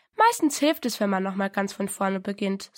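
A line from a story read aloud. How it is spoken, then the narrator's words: Plain. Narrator (German): sagte der Vater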